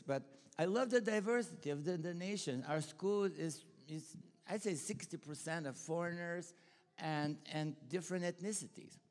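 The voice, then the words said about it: Bulgarian accent in English. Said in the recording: “you could tell my Bulgarian accent”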